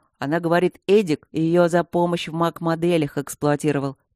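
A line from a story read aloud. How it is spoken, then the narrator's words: Deep bass voice. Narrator (Russian): пробасил Матвей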